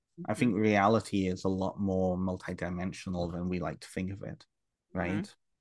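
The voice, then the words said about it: British accent. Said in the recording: “British Canadian guy... I've got a British accent”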